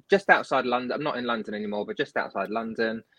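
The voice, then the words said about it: British accent. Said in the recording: “I'm based in the UK, as you can probably tell by my accent.”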